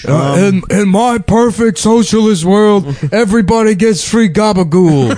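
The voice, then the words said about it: Mafia-style Italian American impression. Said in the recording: “your mafia Bernie Sanders impression ... Italian Bernie Sanders”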